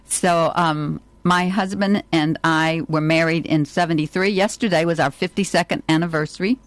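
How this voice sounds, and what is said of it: Southern American drawl. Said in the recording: “I'm from the South. That's the accent you hear, South of America, in New Orleans, Louisiana ... So it's what you call a Southern drawl”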